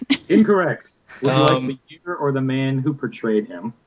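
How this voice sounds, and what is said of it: Game show host voice. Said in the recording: “I'm getting my game show voice.”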